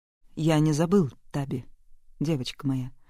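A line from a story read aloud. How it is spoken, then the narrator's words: Calm answer. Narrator (Russian): спокойно ответил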